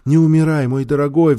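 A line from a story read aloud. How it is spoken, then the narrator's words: Pleading. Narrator (Russian): взмолилась она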